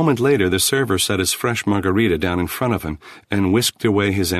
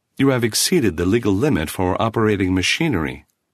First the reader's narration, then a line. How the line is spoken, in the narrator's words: the table informed him in a sweet, motherly voice